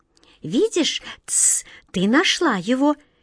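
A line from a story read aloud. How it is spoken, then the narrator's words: Sad whisper, small child. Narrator (Russian): печально шепнул маленький Паш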